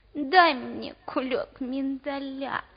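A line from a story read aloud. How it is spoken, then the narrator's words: Sad male voice. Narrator (Russian): сказал он печальным голосом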